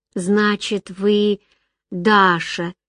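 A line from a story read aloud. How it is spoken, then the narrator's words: Sick woman drawling. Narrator (Russian): протянула больная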